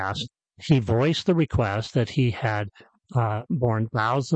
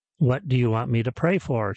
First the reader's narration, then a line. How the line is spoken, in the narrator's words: she said